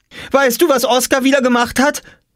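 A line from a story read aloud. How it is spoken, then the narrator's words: Called out. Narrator (German): rief Jule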